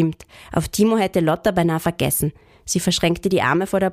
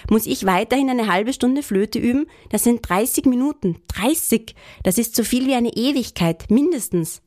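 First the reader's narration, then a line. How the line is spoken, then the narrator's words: Calling out. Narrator (German): rief er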